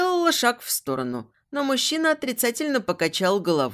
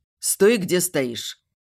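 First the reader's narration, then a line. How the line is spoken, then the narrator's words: Curt demand. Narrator (Russian): Отрывисто потребовал мужчина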